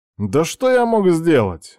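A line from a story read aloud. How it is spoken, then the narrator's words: Offended reply. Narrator (Russian): обиженно отвечает друг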